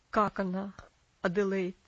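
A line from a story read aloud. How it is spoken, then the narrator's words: Strained attempt at calm. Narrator (Russian): спросил мистер Динсмор, тщетно пытаясь говорить спокойно и уверенно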